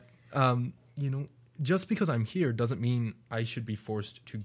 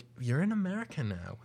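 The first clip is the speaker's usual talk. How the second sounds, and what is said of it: Poor attempt at an American accent. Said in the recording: “that was a horrible attempt at the accent”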